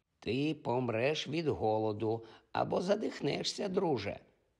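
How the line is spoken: Cracked old woman's voice. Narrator (Ukrainian): вимовила своїм надтріснутим старечим голосом

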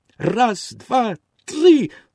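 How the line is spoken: Wooden boy exclaims. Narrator (Ukrainian): вигукнув дерев'яний хлопчик

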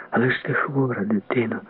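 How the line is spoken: Quiet, breathless voice. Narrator (Ukrainian): сказала Хільда тихим, наче задиханим голосом

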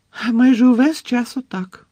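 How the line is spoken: Unconvincingly cheerful voice. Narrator (Ukrainian): пояснила місіс Візлі непереконливо бадьорим голосом

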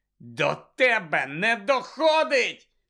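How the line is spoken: Shouting. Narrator (Ukrainian): закричав Гаррі

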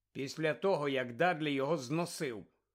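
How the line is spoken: Cold. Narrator (Ukrainian): холодно додав Гаррі

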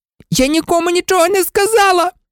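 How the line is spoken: Shrieked. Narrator (Ukrainian): заверещала Герміона

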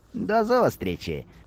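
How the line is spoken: Cheerful. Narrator (Ukrainian): весело сказав Будка

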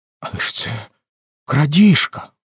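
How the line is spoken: Despairing whisper. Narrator (Ukrainian): в розпачі прошепотіла Емелін

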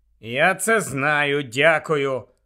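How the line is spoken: Grumbling. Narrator (Ukrainian): буркнув Гаррі

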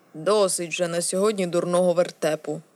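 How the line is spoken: Grumbled. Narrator (Ukrainian): буркнув

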